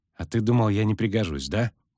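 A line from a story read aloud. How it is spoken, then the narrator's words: Grumbling mutter. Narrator (Russian): буркнул Лютик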